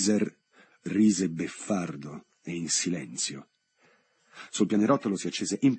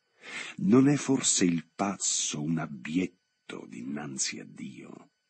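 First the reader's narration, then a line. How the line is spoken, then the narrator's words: Theatrical reply. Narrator (Italian): replicò Ghiviser con tono teatrale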